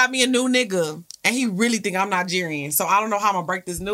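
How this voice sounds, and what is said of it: Usual voice. Nothing is said of it.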